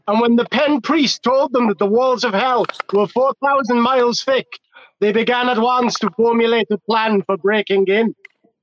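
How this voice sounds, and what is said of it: Attempted Caribbean accent sounding Austrian. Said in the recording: “that was entirely Innsbruck from Austria and had nothing to do with the Caribbean ... Jamaica is apparently in Nigeria”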